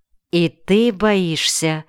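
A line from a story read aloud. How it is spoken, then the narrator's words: Plain. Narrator (Russian): спросила Маша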